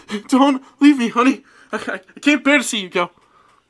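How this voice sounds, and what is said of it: Sobbing, crackling melodramatic character voice. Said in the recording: “sobbing audibly and talking in crackling voices ... can I do that voice?”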